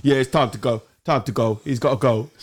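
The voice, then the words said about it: Loose, wet East End London accent. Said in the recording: “It's a loose, wet, sort of East End Rio Ferdinand accent. ... With a cold.”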